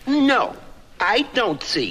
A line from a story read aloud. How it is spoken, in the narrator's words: snapped the caterpillar